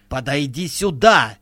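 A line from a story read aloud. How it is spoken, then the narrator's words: Shout. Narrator (Russian): крикнула Вайнти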